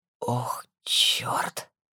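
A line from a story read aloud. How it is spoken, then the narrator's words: Sharp hoarse whisper. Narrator (Russian): вырвался резкий хриплый шепот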